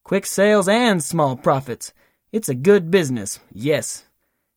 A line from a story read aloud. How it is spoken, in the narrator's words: the Duke, he chuckles again and says